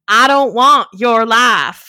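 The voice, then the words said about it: Southern accent, James Van Der Beek impression. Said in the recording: “I think I gave Vanderbeek a run for his money on that Southern accent. ... It was like he was in the room with us.”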